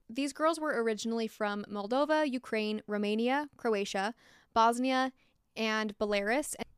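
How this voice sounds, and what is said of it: American accent. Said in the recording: “I'm so sorry for my horrendous pronunciations ... my American accent”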